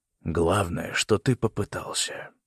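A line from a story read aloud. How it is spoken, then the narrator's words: Quiet. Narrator (Russian): тихо сказал Лео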